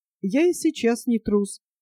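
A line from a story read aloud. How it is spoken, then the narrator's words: Calm. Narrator (Russian): сказал спокойно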